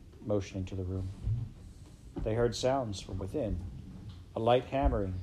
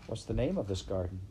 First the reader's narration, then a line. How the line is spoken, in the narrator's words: Heather asked